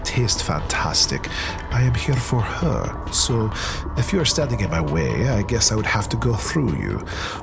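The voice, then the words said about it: Stereotypical vampire accent. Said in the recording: “accent? ... It sounded vaguely stereotypical vampire.”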